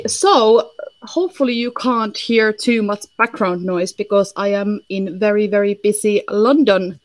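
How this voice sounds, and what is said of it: Finnish-accented English, not posh. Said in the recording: “I don't sound like very smart, posh English ... I'm originally from Finland, so hence why I got a little bit of, you know, hilly-billy accent ... now I'm stuck with this Finnish.”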